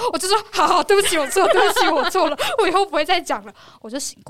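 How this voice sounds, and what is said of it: Usual voice. Nothing is said of it.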